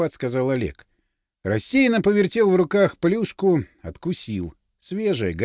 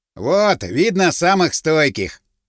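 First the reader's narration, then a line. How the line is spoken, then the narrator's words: Snorting. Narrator (Russian): хмыкнул стриженный Вольдемар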